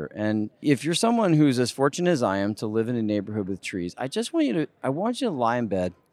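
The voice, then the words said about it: Emotional, choked-up voice. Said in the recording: “Sorry, I got a little emotional there.”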